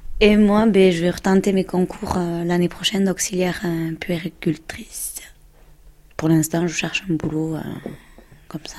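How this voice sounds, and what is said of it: Southwestern French accent. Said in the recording (French): “vous n'avez pas tout à fait le même accent toutes les deux ... du sud-ouest”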